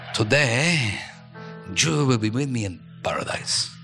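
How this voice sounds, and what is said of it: Put-on Latino accent. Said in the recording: “Sounds better in a Latino accent.”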